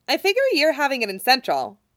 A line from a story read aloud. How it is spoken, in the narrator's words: she says, cheerfully